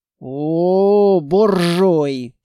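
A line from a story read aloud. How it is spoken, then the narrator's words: Drawled. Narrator (Russian): протянул Петрович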